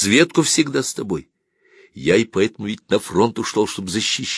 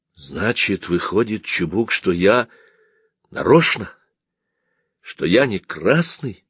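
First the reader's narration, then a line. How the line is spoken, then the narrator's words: Trembling voice, asking back. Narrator (Russian): дрогнувшим голосом переспросил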